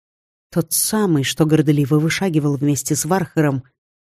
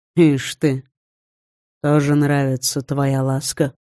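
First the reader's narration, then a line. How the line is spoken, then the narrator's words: Relaxed, calm snort. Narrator (Russian): хмыкнул уже чуть более расслабленно и спокойно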